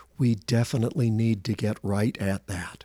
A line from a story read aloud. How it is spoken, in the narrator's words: compassionately said